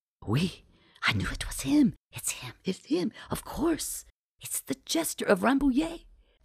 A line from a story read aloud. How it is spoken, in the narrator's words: demanding excitedly